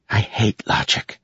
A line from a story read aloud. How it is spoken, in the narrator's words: whispered